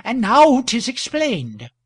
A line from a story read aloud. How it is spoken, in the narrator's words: faltered one of the women against the wall